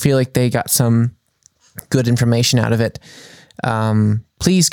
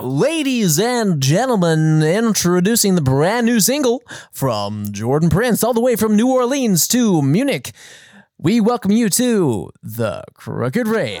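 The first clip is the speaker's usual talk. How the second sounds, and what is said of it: Radio announcer voice. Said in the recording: “your best radio host impersonation”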